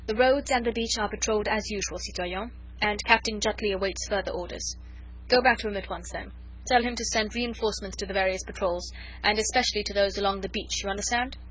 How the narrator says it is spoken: Chauvelin spoke curtly and to the point

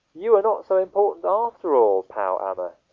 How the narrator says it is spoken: he said

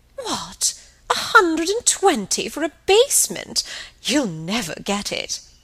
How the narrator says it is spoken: exclaiming

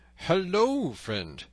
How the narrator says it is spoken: cried Robin

